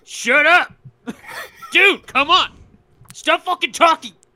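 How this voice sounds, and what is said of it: Aggressive imitation of another person's voice. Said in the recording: “I think I got a good Ian impression. ... too aggressive.”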